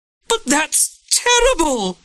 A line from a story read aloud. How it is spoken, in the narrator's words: the prison governor screamed, bursting into tears